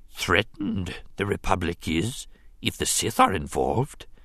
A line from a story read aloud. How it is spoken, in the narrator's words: he observed in his soft, gravelly voice